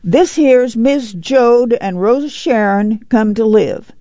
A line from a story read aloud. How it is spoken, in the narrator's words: Jesse said loudly